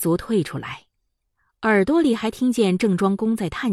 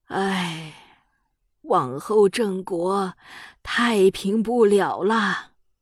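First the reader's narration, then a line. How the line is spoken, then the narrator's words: Sighing. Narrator (Chinese): 他又叹着气，说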